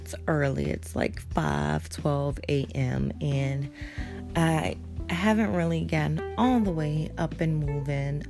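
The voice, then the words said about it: Slightly raspy voice. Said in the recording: “my voice sounds a little raspy.”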